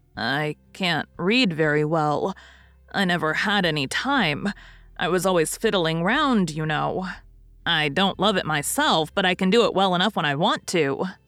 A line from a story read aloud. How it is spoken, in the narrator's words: Poor Nat's flush of pleasure deepened to a painful scarlet at those last words, and he stammered out